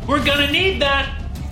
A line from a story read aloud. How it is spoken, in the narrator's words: Max yelled